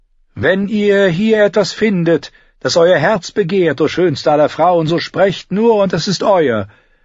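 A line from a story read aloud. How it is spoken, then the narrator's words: Called down. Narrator (German): rief ihr Xaro von seinem edlen Sattel herab zu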